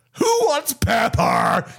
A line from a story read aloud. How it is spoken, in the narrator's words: She howled